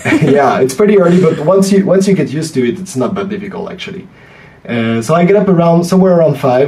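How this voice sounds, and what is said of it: French accent. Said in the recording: “I'm French. ... your listeners can probably guess from my accent.”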